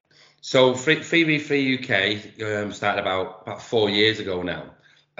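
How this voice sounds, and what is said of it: Manchester English accent. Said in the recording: “I've been doing 3v3 in Manchester, you can probably tell from my accent”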